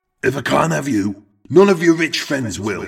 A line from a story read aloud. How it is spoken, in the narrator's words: Eric shout